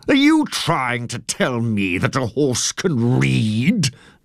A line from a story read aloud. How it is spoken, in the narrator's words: The judge sneered